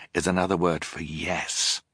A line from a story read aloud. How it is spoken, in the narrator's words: Klaus explained quietly